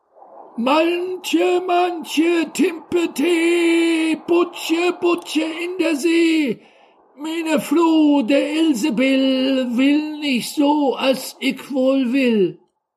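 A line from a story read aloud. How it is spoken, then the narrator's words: Calling out. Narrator (German): rief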